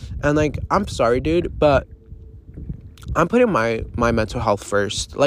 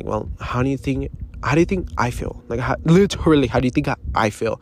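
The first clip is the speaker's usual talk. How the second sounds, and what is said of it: Whispering. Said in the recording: “why am I whispering?”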